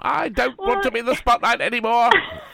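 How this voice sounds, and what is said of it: Put-on Irish accent. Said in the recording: “With an Irish accent.”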